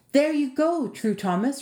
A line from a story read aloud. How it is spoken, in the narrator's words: Rosamond cried